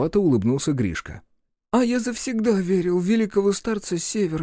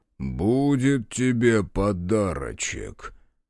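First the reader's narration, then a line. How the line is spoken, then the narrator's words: Bewildered. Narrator (Russian): отозвался явно обескураженный происходящим Мороз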